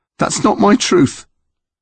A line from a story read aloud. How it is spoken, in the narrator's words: Connor said, his voice shaking